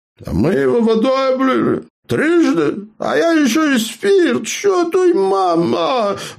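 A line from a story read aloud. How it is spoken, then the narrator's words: Gnome exhaling. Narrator (Russian): выдохнул гном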